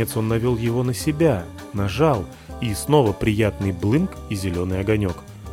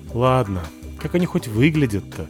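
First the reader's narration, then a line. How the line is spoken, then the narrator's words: Annoyed sigh. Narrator (Russian): вздохнул с досадой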